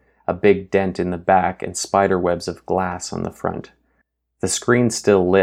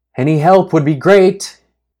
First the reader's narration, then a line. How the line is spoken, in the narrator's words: Grace shouted, her words drying and withering into the earth